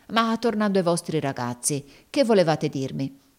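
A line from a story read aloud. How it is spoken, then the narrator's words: Exclaimed. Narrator (Italian): esclamò Squeers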